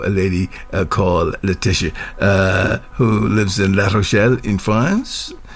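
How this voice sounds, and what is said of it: Slipping into a French accent. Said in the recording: “I sort of just fell into the French accent”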